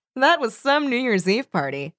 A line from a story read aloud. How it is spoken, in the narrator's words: she said, chuckling